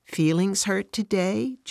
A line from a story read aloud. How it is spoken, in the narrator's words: Jesus softly asks